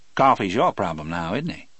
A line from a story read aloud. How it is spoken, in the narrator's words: Hammersmith asked